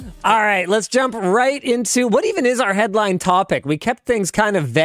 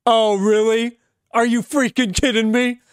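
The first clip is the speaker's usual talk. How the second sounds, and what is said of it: Imitates another person's voice. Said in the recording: “I'm doing my best Luke voice because you're not here to do the Luke voice.”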